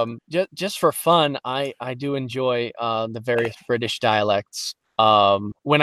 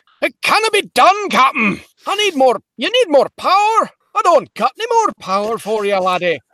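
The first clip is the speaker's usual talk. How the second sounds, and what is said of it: Scottish accent, yelling. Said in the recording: “one of my first accents that I picked up was Scottish, watching Scotty yell at Kirk”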